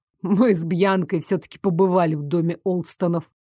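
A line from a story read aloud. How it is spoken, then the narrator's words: Cold informing. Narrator (Russian): холодно уведомил его Дарек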